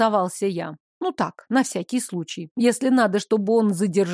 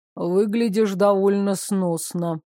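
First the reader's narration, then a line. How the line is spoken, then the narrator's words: Absent, detached tone. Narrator (Russian): поведал мне отсутствующим тоном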